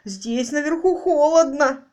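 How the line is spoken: Whining. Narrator (Russian): хныкал Роджер

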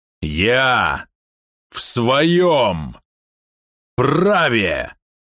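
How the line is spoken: Infernal growl. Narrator (Russian): Голос Квана больше напоминал инфернальное рычание

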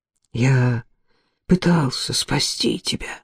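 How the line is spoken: Whispering. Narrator (Russian): шептал

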